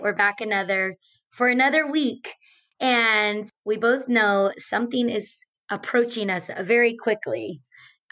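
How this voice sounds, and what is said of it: Strained, hoarse voice. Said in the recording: “My voice is just, I've just been losing my voice, straining my voice. ... when you have a strained voice”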